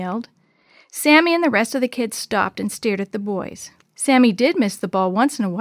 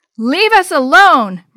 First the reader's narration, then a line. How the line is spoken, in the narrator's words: Maria yelled